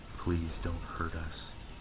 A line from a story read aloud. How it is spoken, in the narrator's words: I begged in a sobbing whisper